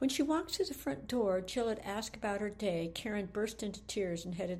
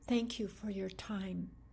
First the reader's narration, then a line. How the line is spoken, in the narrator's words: whispered